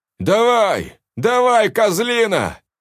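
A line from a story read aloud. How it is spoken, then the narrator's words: Yelling. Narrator (Russian): заорал Андрей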